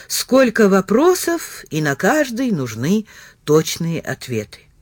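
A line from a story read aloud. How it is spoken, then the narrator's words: Stunned yet calm, unhurried. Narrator (Russian): Макульский произнес так же спокойно и неторопливо, как протирал стекла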